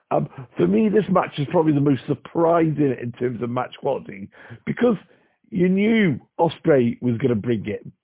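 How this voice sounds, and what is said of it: Husky strained voice. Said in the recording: “as you can probably tell from my voice is a bit husky ... because, of course, I sung Judas at the top of my voice”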